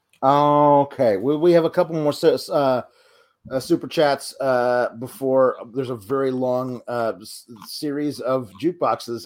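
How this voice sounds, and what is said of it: Hoarse, fading voice. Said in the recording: “I'm currently losing my voice.”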